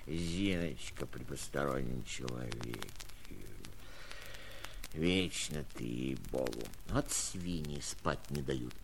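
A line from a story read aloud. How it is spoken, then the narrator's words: Irritated grumbling. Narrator (Russian): проворчал я, сердясь, сам не зная чего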